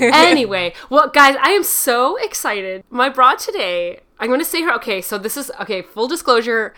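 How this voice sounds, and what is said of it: Usual voice. Nothing is said of it.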